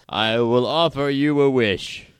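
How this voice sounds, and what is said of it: Grand old wizard voice. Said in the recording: “You sound like a king. ... No, I'm doing Gandalf. ... Yeah, like that kind of wizard.”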